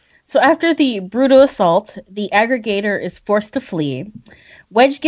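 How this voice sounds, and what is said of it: Usual voice. Nothing is said of it.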